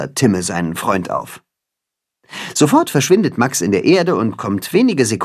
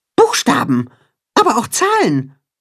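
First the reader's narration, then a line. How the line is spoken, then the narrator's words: Mole calling out. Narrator (German): ruft der Maulwurf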